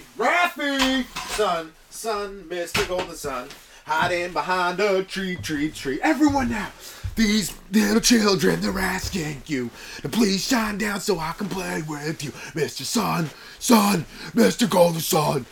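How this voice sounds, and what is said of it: Singing in a metal band style. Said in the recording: “doing an impression of a metal band”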